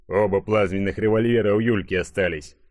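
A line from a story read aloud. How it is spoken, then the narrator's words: Snort. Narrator (Russian): хмыкнул Игорек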